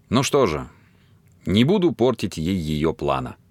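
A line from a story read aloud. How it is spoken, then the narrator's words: Grim. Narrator (Russian): мрачно решил он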